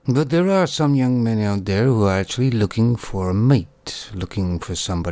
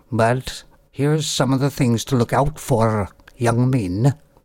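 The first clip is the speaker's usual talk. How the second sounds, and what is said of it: A terrible put-on accent. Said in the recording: “that was a terrible accent. I have no idea where that's from. Probably from nowhere”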